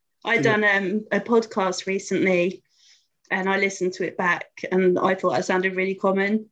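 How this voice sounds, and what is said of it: Slight London accent, dropped T's. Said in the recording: “you're a little bit London ... I drop my T's mostly, I think, is my biggest giveaway of where I'm from”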